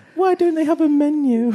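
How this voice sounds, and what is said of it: Bad impression of a friend. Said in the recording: “That's a terrible impression of Carla. ... Yeah, it was awful. ... Yeah, that was really bad.”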